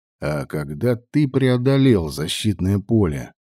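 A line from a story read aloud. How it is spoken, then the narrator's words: Calm insistent questioning. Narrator (Russian): спокойно, но настойчиво выяснял Влад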